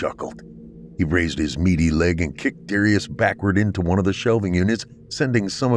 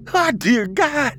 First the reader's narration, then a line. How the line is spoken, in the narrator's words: Darius screamed